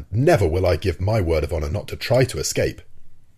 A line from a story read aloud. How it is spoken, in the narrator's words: exclaimed Ned Land